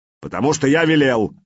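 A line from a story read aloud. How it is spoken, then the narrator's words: Barked. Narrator (Russian): рявкнул Сигурд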